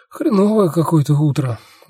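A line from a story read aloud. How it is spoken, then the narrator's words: Sighed. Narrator (Russian): вздохнул я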